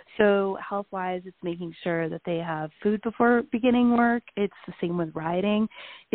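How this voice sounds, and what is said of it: Voice sounds unwell. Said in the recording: “I'm actually not feeling great today. You could probably hear it in my voice.”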